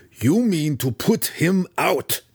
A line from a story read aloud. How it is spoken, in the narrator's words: Belwar snarled accusingly at Schnicktick